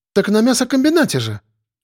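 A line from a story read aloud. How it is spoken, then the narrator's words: Exclamation. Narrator (Russian): воскликнула Зина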